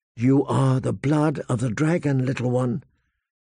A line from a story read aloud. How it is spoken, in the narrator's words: she whispered